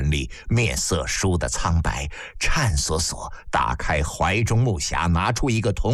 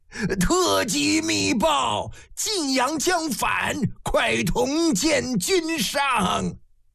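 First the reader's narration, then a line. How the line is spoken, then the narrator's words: Old man's hoarse urgent shout. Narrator (Chinese): 老长史 疾步匆匆 嘶声喊得一句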